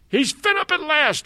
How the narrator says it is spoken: I screamed at the very top of my voice

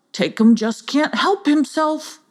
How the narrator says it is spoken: grunted Bragger

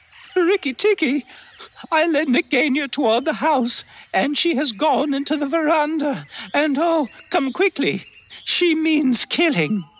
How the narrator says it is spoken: Darzee's wife screaming

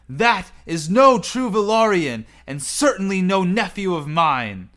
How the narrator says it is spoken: he yells

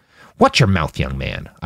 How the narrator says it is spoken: Isaac snapped

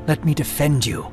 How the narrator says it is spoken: Johanan whispered to his friend

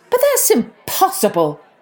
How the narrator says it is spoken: cried Maggie's mother

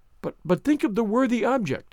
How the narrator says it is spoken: pleaded Anne

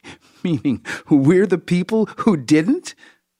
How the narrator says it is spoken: Zinhul forces herself to laugh

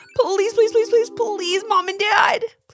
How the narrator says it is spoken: pleaded Levi

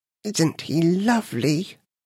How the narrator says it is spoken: whispered the queen

